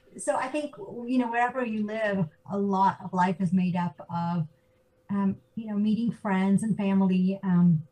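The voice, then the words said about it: American accent. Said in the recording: “I grew up in the States, which, of course, my accent always gives away.”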